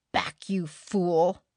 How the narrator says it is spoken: snarled Barter

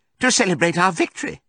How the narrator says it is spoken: cried Squealer

